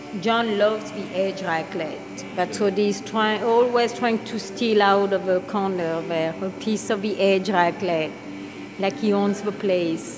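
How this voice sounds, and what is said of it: French accent. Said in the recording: “That French accent”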